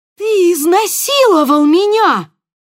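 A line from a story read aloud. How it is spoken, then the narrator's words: Shouted. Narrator (Russian): крикнула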